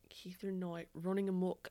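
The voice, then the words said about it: Attempted Australian accent. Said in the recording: “running amok with an Australian accent ... I can't do it. It's really hard.”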